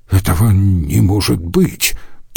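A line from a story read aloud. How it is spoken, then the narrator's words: Muttered. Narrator (Russian): пробормотал надзиратель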